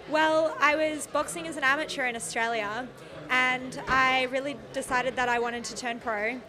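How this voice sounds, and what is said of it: Australian accent. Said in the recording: “your accent, because you're Australian ... Australian, yeah. Fully Australian.”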